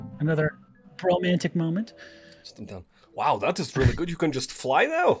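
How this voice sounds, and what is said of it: Usual voice. Nothing is said of it.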